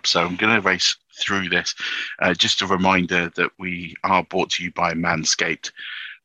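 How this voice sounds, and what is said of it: Raw, sore, weak voice. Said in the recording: “I don't know if you can hear my voice. I'm struggling a little bit with a cold and ... my voice is not the strongest today. It's quite raw and sore”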